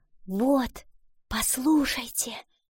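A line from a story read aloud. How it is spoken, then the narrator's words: Whispered, eyes closed. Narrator (Russian): Прикрыв глаза, прошептала она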